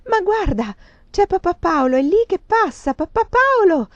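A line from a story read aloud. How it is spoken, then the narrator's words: Shrieking at full strength. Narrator (Italian): strillò con quanta forza aveva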